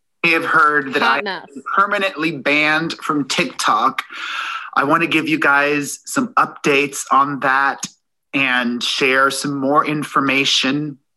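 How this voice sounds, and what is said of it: Choked-up, tearful, slow voice. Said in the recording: “his voice is a little choked up. He's on the verge of tears ... he's crying ... I'm gonna start talking slow like that.”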